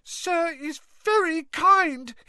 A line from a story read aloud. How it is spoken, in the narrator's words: he squeaked, his eyes brimming with tears again